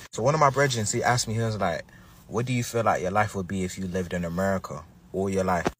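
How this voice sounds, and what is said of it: Black American accent. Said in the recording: “This is a dude who's from the UK, but he was able to sound like he's Black American.”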